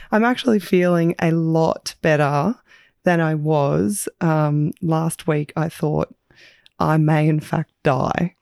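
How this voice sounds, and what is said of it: Croaky, hoarse voice. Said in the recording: “as you can hear from my voice ... A little bit croaky.”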